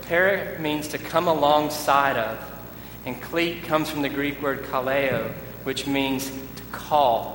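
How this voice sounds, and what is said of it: Southern American accent. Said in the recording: “Greek with a southern accent”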